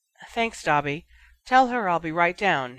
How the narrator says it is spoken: Harry groaned

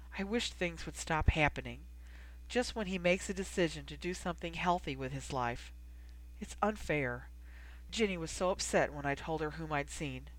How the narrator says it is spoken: she said softly

